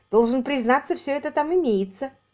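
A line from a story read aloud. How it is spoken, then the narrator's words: Laughing confirmation. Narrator (Russian): подтвердил он, смеясь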